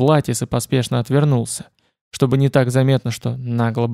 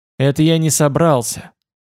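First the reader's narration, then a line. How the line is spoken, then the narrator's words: Angry interruption. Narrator (Russian): перебил Влатис зло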